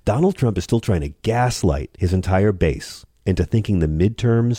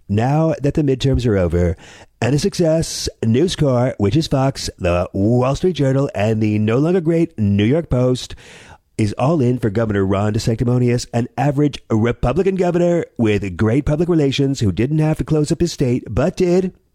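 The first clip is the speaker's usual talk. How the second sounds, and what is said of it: Donald Trump impression. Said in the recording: “I don't do as good an impression as other people”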